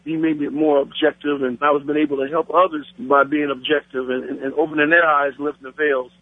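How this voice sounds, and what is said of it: Black American accent. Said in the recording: “As you can tell by my voice, partner, I'm a Black American.”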